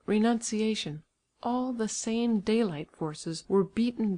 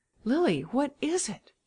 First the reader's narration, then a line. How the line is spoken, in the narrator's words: she exclaimed